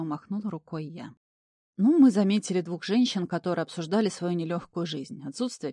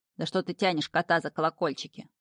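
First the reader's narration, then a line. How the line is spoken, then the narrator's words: Creature's grumble. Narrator (Russian): проворчал шнырь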